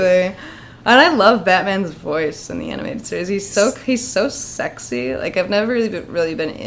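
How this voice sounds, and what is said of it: Usual voice. Nothing is said of it.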